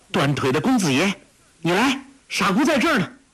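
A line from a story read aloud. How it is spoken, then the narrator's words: Calling out. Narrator (Chinese): 黄蓉叫道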